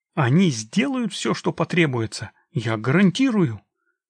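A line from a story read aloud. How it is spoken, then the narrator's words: Ardent exclamation. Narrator (Russian): горячо воскликнул Геларди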